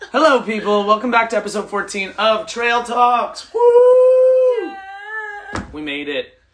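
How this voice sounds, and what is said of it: Hoarse, worn-out voice. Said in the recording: “It's so early. My voice is shot.”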